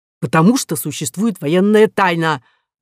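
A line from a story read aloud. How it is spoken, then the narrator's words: Barking snap. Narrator (Russian): рявкнул Лей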